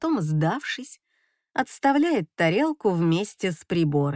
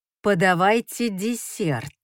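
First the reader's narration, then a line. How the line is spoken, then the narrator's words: Dry command. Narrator (Russian): сухо приказываю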